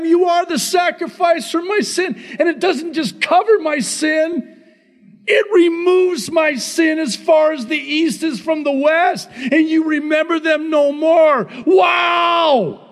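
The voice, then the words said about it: Yelling excitedly. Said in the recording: “Sorry, I'm yelling.”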